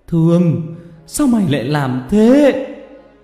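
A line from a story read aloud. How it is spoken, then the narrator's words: Anguished yell. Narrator (Vietnamese): Ông Khanh gào lên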